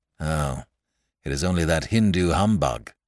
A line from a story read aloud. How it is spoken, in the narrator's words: growled Harris